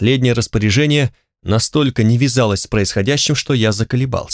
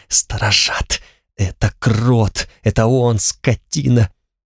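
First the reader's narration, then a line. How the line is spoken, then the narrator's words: Tearful whisper. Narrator (Russian): прошептала со слезами в голосе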